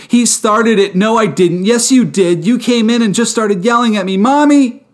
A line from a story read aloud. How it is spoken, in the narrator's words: yells of